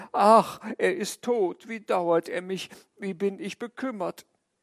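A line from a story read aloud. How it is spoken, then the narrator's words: Grieving lament, two voices. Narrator (German): Meine Frau betrübte sich auch, wir jammerten beide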